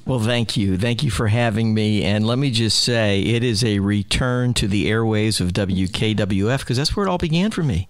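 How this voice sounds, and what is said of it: Polished radio broadcaster voice. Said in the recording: “You have this great radio voice ... your stinking broadcasting voice is so good”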